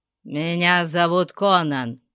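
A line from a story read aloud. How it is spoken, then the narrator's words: Growling. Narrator (Russian): прорычал кемериец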